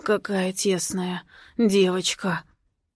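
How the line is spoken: Satisfied hoarse whisper in ear. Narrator (Russian): удовлетворенно хрипит мне в ушко

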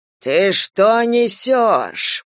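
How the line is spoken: Growled. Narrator (Russian): прорычал Ревякин

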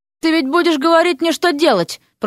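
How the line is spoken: Moaning. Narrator (Russian): простонала она

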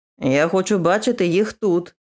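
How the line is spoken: Growled. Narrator (Ukrainian): прогарчав

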